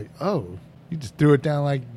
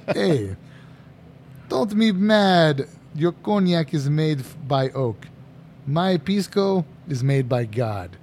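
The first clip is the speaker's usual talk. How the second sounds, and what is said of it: Put-on accent imitating Johnny Schuler. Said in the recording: “let me get my accent back”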